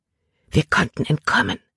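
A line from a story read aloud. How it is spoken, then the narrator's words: Whisper. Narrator (German): flüsterte sie Caleb zu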